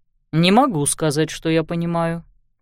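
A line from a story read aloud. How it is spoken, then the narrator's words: Cold. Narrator (Russian): холодно ответил инспектор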